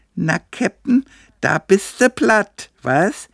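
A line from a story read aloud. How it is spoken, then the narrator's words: Squealing in ear. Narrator (German): quiekte mir Betty ins Ohr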